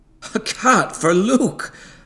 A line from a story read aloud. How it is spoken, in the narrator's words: said with a laugh